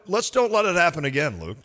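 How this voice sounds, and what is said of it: Stern dad voice. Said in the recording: “That's as strong as a dad voice as I could do.”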